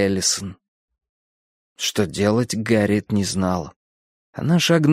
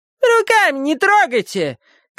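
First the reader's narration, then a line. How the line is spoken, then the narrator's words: Thin, grumpy shout. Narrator (Russian): крикнула она тоненьким сварливым голоском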